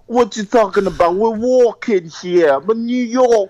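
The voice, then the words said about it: Bad put-on New York accent. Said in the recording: “he was too busy trying to do a bad accent”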